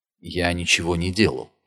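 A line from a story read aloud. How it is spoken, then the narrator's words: Quiet. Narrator (Russian): тихо произнес Нильс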